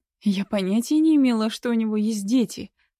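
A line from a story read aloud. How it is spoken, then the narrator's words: Exclaiming. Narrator (Russian): воскликнула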